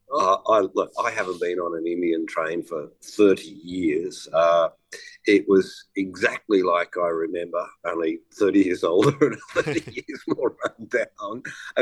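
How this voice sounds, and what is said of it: Croaky, rough voice. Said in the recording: “my voice is a bit croaky ... very dusty and smoky ... Sound like I've been smoking a pack a day”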